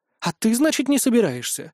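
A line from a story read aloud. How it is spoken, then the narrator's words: Indignant question. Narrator (Russian): возмущенно уточнила Линара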